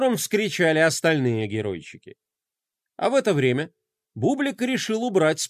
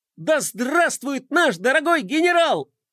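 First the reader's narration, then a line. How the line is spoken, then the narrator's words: Loyal adjutant yelling. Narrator (Russian): завопил его верный помощник и адъютант Мелкотрон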